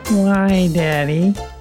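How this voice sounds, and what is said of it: Imitates a child character's voice. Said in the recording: “That's my impersonation. Not very good.”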